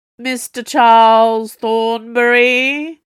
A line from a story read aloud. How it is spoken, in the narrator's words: boomed into the library